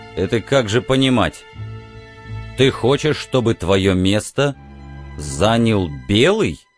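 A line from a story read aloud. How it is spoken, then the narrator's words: Cold question. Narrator (Russian): холодно спросил Тис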